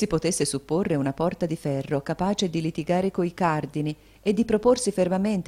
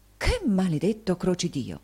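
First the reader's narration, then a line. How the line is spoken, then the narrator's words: Frightened exclamation. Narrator (Italian): il signor Mantalini spaventato, esclamò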